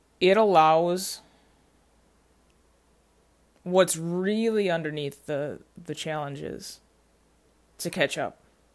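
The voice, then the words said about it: Slow, deliberate speech with long pauses. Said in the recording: “my voice gets slower right my breathing slows down”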